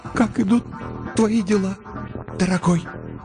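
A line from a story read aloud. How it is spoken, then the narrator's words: Miserable, forced out. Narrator (Russian): выдавила из себя несчастная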